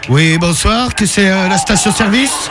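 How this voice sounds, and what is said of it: Put-on Belgian French accent. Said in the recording (French): “je vais parler en belge”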